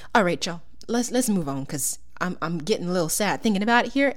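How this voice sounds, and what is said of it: Fake Southern US accent. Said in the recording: “my fake southern accent's coming out”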